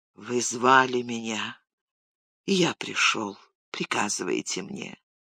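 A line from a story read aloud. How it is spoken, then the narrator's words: Barely audible. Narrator (Russian): он сказал едва слышно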